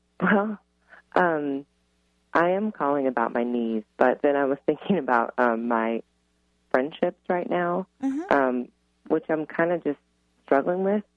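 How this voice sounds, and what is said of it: Rich, polished radio voice. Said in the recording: “You have an amazing radio voice”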